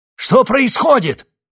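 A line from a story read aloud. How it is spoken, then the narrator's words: Frightened shout. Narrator (Russian): испуганно крикнул Скальд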